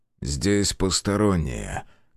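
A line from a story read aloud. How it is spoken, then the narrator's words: Cold lifeless male voice. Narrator (Russian): констатировал мужчина холодным безжизненным голосом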